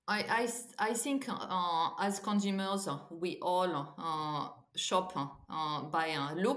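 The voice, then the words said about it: French accent. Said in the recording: “we can hear that you're that you're French ... your accent there”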